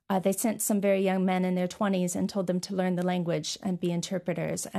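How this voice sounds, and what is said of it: American accent. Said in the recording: “we can hear from your voice, you're from the States”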